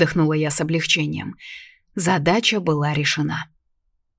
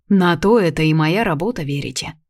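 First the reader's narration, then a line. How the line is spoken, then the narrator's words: Man's snort. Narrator (Russian): хмыкнул мужчина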